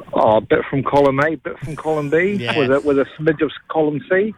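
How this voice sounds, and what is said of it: New Zealand accent. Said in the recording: “Is that a New Zealand accent that I can hear? ... I am New Zealander, born and bred.”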